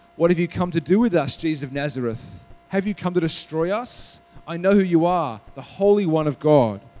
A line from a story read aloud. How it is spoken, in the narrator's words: a man with unclean spirit, and he cried out